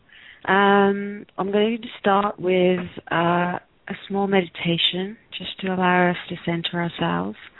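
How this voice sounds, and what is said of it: Slightly hoarse, throaty voice. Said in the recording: “as you can hear in my voice, I've got a little bit of a throat issue. I've had a bit of a cold”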